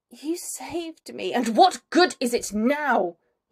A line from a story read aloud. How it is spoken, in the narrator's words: he hisses